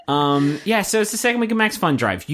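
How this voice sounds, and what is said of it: Deliberately serious, earnest voice. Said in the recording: “This is my serious voice.”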